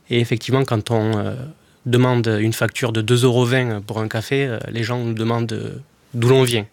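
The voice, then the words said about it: Slight southern French accent. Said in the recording (French): “j'imagine que ça s'entend à la radio, mais j'ai un petit accent. ... du Sud, et du Sud, on précise, et ensuite de l'Aveyron.”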